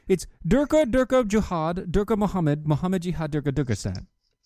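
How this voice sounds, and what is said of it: Put-on mock accent, gibberish. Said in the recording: “You didn't do it right, dude. ... How do you not do the accent right?”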